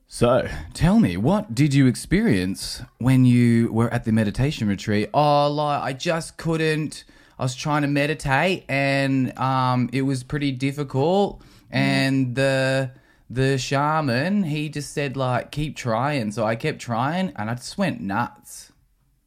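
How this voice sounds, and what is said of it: Australian TV current-affairs accent. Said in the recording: “Are you adding an accent too? ... that's what it sounds like when you listen to Australian Current Affairs.”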